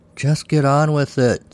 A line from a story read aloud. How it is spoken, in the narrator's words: Saul groaned